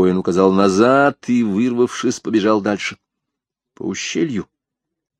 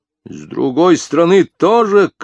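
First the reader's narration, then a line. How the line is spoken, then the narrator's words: Shouted. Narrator (Russian): крикнул Язон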